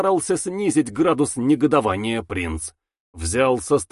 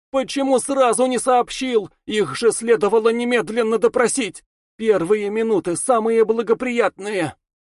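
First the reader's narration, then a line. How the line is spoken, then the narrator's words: Shouting. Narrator (Russian): Она закричала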